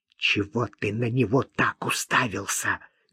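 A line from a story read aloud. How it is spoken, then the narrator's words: Angry hiss. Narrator (Russian): гневно прошипела она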